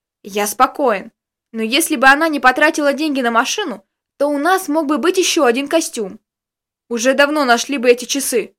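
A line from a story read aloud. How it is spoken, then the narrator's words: Grumbling. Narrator (Russian): продолжал ворчать Костик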